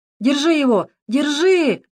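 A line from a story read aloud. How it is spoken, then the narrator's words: Desperate shout. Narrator (Russian): отчаянно закричал Володя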